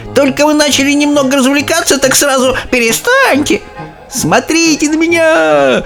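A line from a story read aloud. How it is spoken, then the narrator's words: Old woman shouting. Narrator (Russian): кричала бабушка Джозефина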